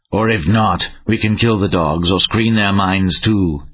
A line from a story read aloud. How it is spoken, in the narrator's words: he sneered